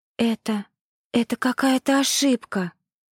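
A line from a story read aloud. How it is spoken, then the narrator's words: Desperate whisper. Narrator (Russian): в отчаянии прошептала она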